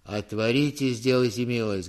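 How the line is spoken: Muffled bass behind gate. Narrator (Russian): говорил кто-то за воротами глухим басом

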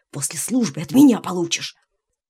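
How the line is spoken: Hissing. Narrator (Russian): Гришка прошипел

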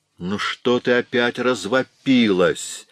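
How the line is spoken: Angry question. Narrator (Russian): сердито спросил Том

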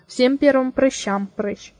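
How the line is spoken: Grumbling. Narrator (Russian): проворчала Лорел

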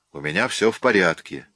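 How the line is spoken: Sharp. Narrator (Russian): резко ответил я

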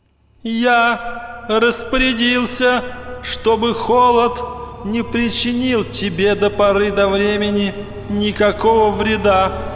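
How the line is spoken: Thin ringing voice. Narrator (Russian): Ответил кто-то тоненьким, звонким голосом

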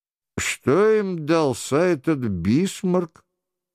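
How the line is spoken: Quiet. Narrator (Russian): тихо проговорил Лефлюаз, который старался прослыть скучающим в обществе

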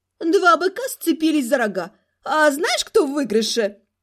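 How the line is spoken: Laughing while speaking. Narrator (Russian): сказала сквозь смех Эльзушка

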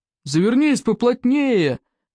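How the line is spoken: Shouted from above. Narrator (Russian): крикнул спаситель Икингу сверху

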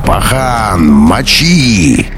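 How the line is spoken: Growled. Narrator (Russian): Уф зарычал

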